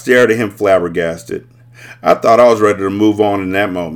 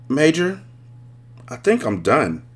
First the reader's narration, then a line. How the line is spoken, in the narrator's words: In a calm and amicable tone, I said